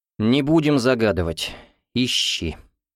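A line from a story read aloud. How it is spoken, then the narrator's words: Sighing. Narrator (Russian): вздохнул Гуров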